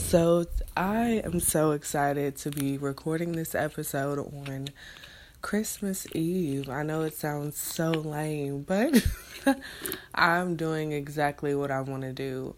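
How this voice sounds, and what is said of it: Scratchy, hoarse voice. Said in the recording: “I feel like my voice is really scratchy”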